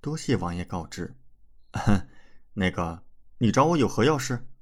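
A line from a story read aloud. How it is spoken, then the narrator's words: Direct question. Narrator (Chinese): 李准直接问道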